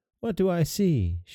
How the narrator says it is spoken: she cried

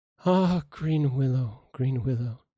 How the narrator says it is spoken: sighed

